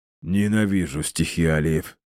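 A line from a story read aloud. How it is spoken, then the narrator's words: Forced out. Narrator (Russian): наконец выдавил он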